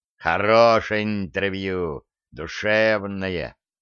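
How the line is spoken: Approving low drone. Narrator (Russian): одобрительно прогудел РПК

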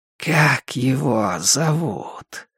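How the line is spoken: Almost affectionate inquiry. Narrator (Russian): Почти ласково поинтересовался коротышка

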